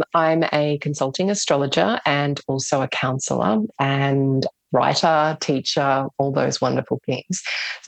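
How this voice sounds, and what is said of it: Australian accent. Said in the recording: “I'm based on the Sunshine Coast in Australia, if you can't tell from my accent already”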